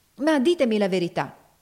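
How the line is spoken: Exclaiming. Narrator (Italian): esclamava Ophelia

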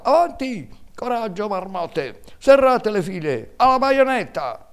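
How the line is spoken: General shouting amid battle. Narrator (Italian): nel bollor della mischia si sentiva sempre la voce del generale che gridava

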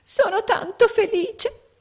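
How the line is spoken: Small woman sobbing. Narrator (Italian): singhiozzò la piccola donna

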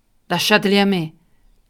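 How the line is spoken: Shrill shout over uproar. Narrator (Italian): gridò allora Hop Frog, e la sua voce stridula dominava il tumulto

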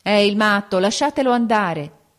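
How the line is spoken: Several voices exclaiming. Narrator (Italian): esclamarono alcuni

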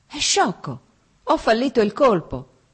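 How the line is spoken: Exclaiming. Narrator (Italian): esclamò

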